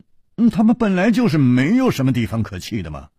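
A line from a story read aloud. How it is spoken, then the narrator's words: Sighing tone. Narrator (Chinese): 楚留香叹了一口气说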